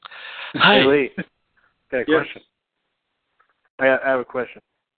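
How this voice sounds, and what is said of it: Imitates another person's voice. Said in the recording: “it sounds like the guy's doing a Will Ferrell, Harry Carey impersonation.”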